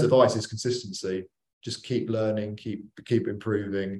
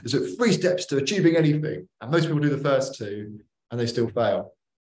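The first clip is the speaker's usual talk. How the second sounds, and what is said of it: Tony Robbins impression. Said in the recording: “my Tony Robbins impression.”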